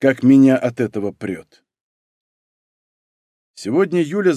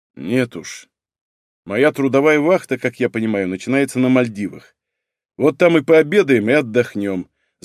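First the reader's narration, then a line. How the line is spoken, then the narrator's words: Angry. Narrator (Russian): зло сказал Егор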